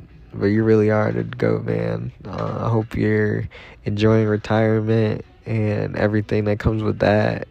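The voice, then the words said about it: Choked-up, emotional voice. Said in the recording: “I'm getting choked up over here, I ain't gonna lie.”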